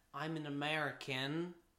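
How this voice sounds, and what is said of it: English speaker's put-on American accent. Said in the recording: “That was an English person doing an American accent.”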